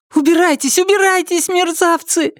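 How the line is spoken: Shouting. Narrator (Russian): закричала Триша

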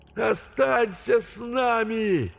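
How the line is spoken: Ghosts shouting. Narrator (Russian): Призраки уже не говорили, кричали

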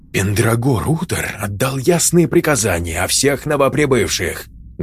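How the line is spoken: Pained hiss into ear. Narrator (Russian): Зашипел кто-то, невидимый от боли, прямо ей в ухо

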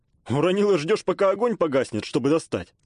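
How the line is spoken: Snort. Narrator (Russian): хмыкнул я

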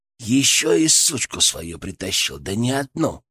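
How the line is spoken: Muttered. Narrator (Russian): пробормотал Кастет

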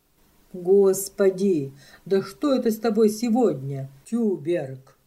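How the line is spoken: Plain. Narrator (Russian): сказал звонарь

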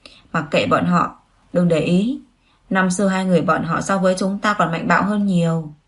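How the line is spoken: Laughing whisper. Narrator (Vietnamese): Dương Nghị thì nói cười cười, thủ thỉ bên tai cô cười nói

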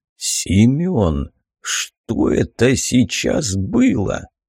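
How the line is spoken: Cracking hoarse voice. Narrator (Russian): срывающимся хриплым голосом спросил тучный мужчина

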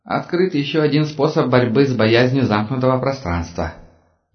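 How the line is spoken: Snide snort. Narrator (Russian): ехидно хмыкнул он

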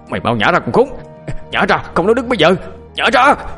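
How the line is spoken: Loud yell. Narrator (Vietnamese): ông ta hét lớn

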